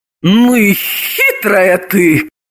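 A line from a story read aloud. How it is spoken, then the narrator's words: Exclaiming. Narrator (Russian): воскликнула Елизавета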